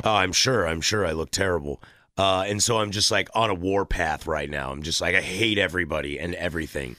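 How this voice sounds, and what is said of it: Rough, worn-out sounding voice. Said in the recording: “I'm extremely hungover, if you can't tell in my voice.”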